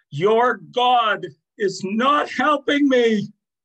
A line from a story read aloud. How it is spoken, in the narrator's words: She was having a particularly bad day, she screamed